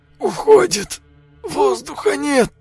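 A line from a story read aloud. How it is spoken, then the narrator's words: Strained, choked out. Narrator (Russian): Выдавил он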